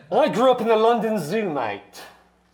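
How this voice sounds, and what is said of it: Put-on British accent. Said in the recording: “the British accent? ... The accent!”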